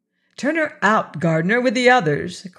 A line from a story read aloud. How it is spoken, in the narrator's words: cried